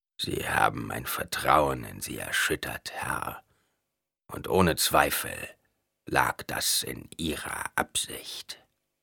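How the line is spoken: Gloomy voice. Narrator (German): Mit trüber Stimme sagte Edric

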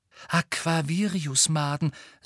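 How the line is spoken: Excited. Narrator (German): sagte Luna aufgeregt

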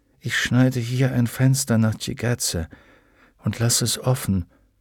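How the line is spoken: Said softly. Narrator (German): sagte Will leise

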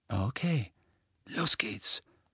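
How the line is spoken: Whispering. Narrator (German): flüsterte Fred

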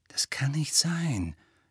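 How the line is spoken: Quiet objection. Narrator (German): widersprach Hermine leise

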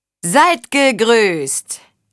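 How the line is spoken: Calling out. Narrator (German): rief Achard von Rialt

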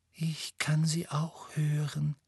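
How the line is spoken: Breathy whisper. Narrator (German): hauchte Luna

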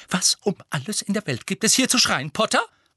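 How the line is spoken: Angry hiss. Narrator (German): fauchte sie

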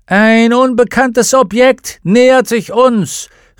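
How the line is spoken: Witch calling out. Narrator (German): rief die Hexe

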